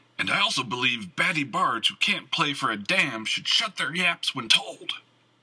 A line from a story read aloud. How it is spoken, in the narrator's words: yelled